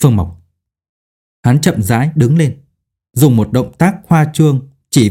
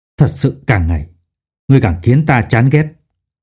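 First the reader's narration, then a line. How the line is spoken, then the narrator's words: Harsh, clenched voice. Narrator (Vietnamese): hắn gằn giọng nói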